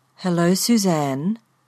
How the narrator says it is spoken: the car said in a rich brown voice

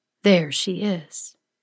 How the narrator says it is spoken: she says, her voice low and resonant

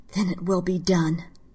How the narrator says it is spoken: In a quiet, angry voice, she said

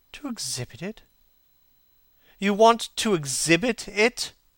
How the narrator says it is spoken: exclaimed Dorian Gray, a strange sense of terror creeping over him

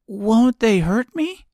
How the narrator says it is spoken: asked the girl anxiously

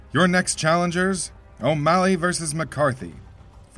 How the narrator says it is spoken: Foley bellowed

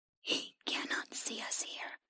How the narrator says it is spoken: the creature whispered to her

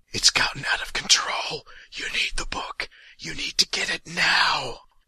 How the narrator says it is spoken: The voice in his ear is whispering

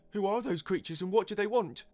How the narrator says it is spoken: cried another

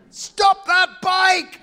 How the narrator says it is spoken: I screamed

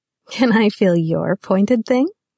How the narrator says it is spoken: she giggled

